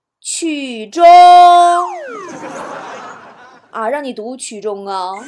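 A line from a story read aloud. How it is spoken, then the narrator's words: Fearful, read aloud loudly. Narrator (Chinese): 害怕的那个感觉……大声念了出来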